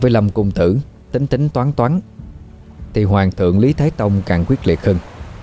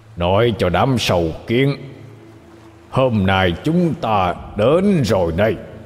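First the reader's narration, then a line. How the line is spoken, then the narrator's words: Fierce roar. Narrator (Vietnamese): Hắn gầm thét một cách dữ tợn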